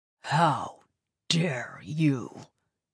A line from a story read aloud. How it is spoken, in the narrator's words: growled